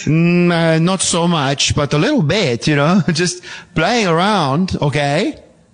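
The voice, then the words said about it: Imitation of co-host's accent. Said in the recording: “Are you trying to do my accent? ... I think it's not accurate.”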